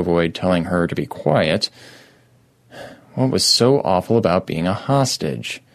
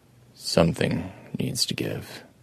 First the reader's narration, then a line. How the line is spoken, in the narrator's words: Adam told it quietly